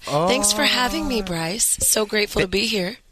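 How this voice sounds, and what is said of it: Sultry, raspy voice. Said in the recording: “your sultry, raspy voice ... This is called I Just Woke Up.”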